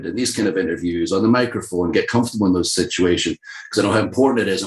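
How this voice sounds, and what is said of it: Softened Scottish accent. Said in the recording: “I'm so proud to be from Scotland, but nobody understands us. So I have to soften the accent, make it a little less harsh.”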